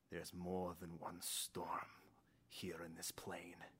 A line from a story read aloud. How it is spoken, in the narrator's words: slowly mutters up to the sky